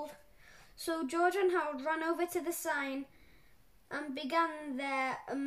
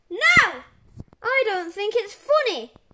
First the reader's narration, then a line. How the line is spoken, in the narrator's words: yelled Mr